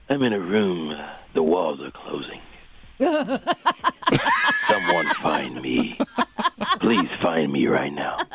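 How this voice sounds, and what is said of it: Scary voice. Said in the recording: “That's a pretty good scary voice”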